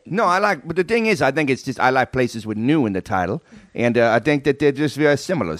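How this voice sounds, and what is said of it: New York accent. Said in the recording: “This is a New York accent... So you have this New York accent”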